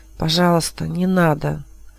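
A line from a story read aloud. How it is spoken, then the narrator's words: Whisper. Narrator (Russian): шепнул он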